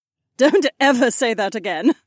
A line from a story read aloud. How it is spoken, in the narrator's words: the soldier laughed